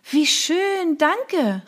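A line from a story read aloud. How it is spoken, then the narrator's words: Calling. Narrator (German): rief ich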